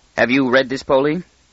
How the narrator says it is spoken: He said stiffly

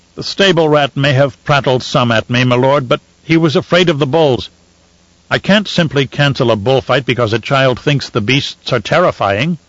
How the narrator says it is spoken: he snorted

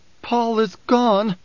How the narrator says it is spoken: Alia's voice was choked

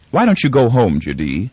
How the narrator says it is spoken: Her voice was a cheerfully businesslike intrusion

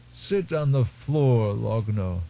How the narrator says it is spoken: Another moan

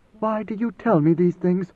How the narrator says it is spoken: She whispered

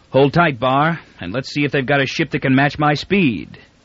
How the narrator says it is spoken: Devers said grimly

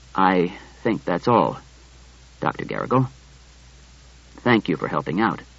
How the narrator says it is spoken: Bailey said in a low voice

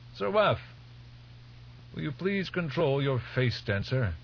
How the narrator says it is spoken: old Albertus called out

